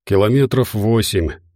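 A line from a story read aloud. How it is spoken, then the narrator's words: Muffled reply. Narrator (Russian): ответил он глухо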